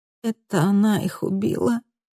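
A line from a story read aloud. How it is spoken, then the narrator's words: Muffled, weary, near tears. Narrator (Russian): Голос звучал глухо, устало и срывался на плач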